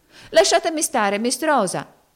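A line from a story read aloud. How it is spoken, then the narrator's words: Shout. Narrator (Italian): gridò Topsy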